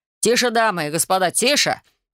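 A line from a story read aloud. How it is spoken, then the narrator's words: Young man shouting. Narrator (Russian): кричал молодой мужчина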